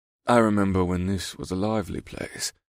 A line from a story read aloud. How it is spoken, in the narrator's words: the dark-skinned man sighed